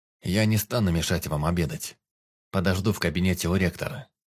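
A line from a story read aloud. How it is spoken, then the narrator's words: Plain. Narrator (Russian): сказал лэр Ладайр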